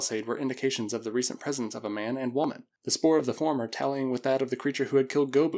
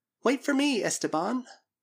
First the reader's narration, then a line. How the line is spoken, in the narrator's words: had pleaded